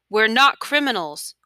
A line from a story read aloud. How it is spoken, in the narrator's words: one of the other men in the cell yelled at him